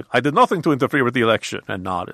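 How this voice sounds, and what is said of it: Count Dracula style vampire accent. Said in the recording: “my impression of Putin is exactly the same as my impression of Count Dracula ... Or the Count from Sesame Street”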